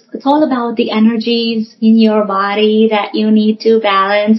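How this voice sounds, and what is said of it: Imitation of new age influencers. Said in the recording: “I'm bad at imitating them ... these new age experts from YouTube and on TikTok and Instagram”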